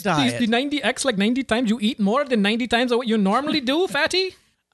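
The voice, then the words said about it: Put-on mock accent. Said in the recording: “the accent is not racist ... you shouldn't do the accent”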